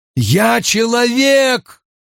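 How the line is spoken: Shout. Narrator (Russian): прокричал Перин

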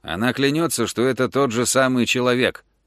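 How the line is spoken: Plain. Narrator (Russian): ответил Превит

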